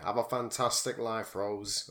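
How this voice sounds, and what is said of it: Scouse accent impression. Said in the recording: “my Terry Christian impression ... that's not even that, that's Scouse. He's Salford.”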